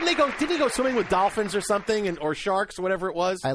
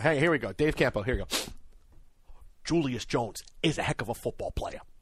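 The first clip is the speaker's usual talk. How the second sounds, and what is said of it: Imitates another person's voice. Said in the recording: “do my Dave Campo impression”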